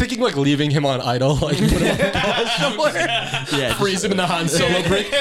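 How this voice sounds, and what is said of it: Usual voice. Nothing is said of it.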